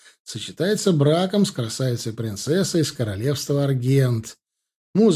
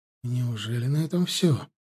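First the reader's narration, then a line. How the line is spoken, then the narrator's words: Quiet question. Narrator (Russian): спросил меня тихонько Элор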